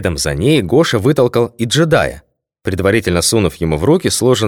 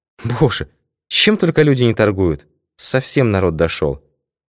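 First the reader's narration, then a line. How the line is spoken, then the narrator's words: Sigh. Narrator (Russian): Не по уставу вздохнула Лидия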